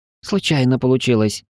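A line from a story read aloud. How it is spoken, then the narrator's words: Confused. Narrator (Russian): растерянно ответил Пар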